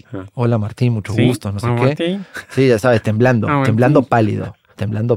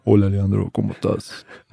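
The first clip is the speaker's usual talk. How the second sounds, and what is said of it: Imitated radio-announcer voice. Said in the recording (Spanish): “con su voz de locutor.”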